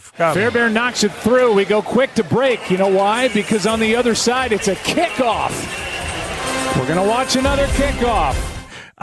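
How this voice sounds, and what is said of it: Ironic fake enthusiasm. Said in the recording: “six levels of ironic fake enthusiasm”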